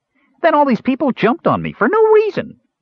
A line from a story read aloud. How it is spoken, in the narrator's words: Earwig added indignantly